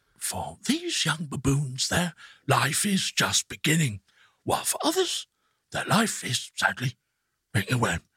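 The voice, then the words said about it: David Attenborough impression. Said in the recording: “do David Attenborough and get a good one ... That's outstanding.”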